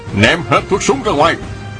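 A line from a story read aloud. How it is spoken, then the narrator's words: Shouting from cliff. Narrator (Vietnamese): Trên vách núi có người quát lên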